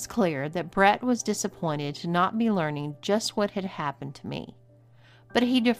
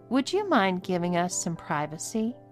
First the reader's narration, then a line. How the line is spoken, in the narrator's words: She asked Brett kindly